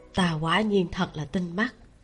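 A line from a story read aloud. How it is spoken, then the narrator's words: Quiet voice. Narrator (Vietnamese): Tiêu Tụng nhỏ giọng nói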